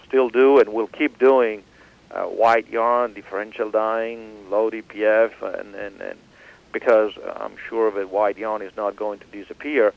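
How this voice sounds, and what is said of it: Italian accent. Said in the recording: “with your accent, I believe you are originally from Italy.”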